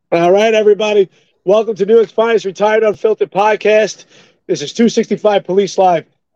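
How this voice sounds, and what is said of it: Hoarse, strained voice. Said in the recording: “I apologize. I lost my voice a bit”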